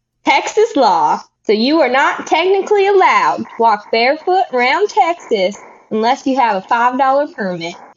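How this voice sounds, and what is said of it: Put-on country Texan accent. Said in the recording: “this one will go with my country accent.”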